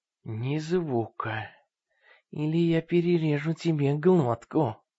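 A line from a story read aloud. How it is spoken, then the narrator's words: Quiet speech. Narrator (Russian): тихо сказал он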